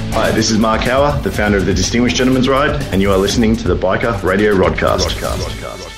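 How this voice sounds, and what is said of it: Australian accent. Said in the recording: “His Aussie accent.”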